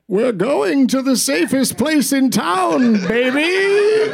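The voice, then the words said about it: Bane impression from Batman. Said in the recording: “do a different voice? ... when you did Bane. I love when you did Bane from the Batman ... trilogy”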